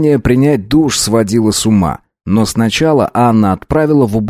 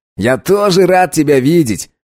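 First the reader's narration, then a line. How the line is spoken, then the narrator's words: Laughing. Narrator (Russian): рассмеялся Чарльз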